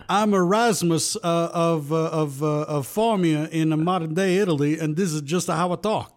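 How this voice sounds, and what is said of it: Put-on accent. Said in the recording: “What accent are you doing tonight?”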